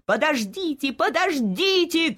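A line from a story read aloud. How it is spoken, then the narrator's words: Shouting. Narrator (Russian): кричал доктор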